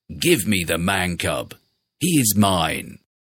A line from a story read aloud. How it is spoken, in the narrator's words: Shere Khan roared